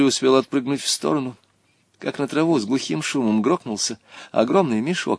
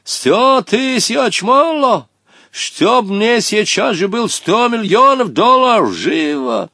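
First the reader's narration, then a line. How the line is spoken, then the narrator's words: Heated shout. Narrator (Russian): запальчиво крикнул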